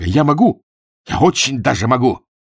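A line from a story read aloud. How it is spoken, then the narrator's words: Shouted insistently. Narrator (Russian): Для того, чтобы убедить генерала, он выкрикнул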